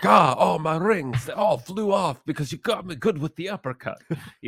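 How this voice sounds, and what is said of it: Mafia boss voice, shifting weird accent. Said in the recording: “I just picture this mafia boss punching somebody right now ... this weird accent that shifted twice during that statement”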